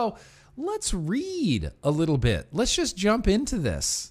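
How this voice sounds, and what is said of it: Usual voice. Nothing is said of it.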